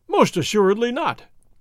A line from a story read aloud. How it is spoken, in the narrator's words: His Excellency cried